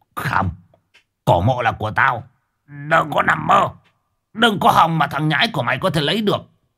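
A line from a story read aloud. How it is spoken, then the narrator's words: Yelling, old man. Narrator (Vietnamese): Lão Nhuận gào lên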